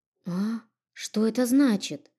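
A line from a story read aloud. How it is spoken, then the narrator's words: Confused, blurted question. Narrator (Russian): растерянно спросила, не выдержав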